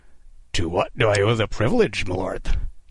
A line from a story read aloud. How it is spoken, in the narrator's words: Kidd rasped, masking his terror with ironic courtesy